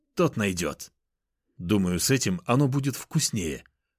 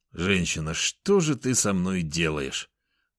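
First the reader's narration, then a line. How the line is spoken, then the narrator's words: Groaning. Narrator (Russian): Простонал я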